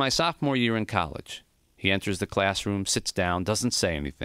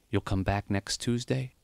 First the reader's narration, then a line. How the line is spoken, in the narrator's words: he whispered